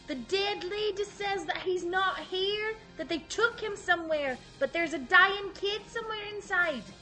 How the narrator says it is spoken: I yell back

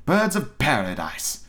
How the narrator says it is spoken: exclaimed

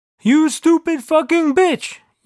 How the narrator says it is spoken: yelled God

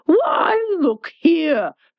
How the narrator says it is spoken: the Red Queen cried

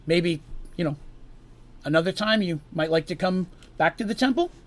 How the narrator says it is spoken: Seraph somewhat nervously asked

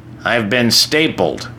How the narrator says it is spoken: says dryly

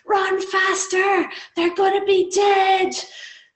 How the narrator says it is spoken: anaesthetic doctor yelling

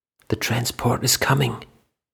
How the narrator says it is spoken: Mac whispered

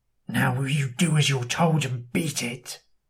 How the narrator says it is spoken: hisses

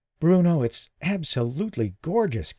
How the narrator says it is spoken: Candace breathed

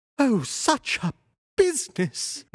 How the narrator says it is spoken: he cried

